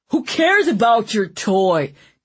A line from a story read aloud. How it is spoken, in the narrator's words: Dunsdworth thundered